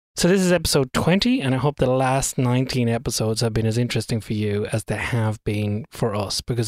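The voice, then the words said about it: Irish accent. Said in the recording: “my Irish accent has an inability to pronounce THs properly”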